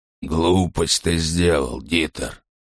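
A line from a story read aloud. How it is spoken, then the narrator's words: Grumbling mutter. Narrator (Russian): пробурчал Крёнер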